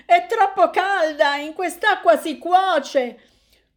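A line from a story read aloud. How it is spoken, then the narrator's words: Shouting. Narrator (Italian): tutti scappano dalla piscina gridando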